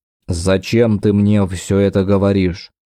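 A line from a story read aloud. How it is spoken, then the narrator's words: Muffled forced words. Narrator (Russian): он глухо вытолкнул слова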